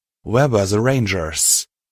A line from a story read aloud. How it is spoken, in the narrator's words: I growled under my breath